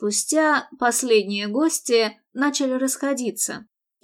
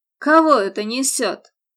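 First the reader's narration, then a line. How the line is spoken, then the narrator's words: Grumbling father. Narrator (Russian): проворчал отец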